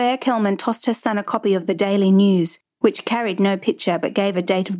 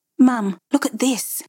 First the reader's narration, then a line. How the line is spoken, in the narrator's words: David hesitantly said